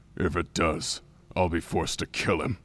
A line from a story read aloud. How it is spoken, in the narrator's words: Daronia growled softly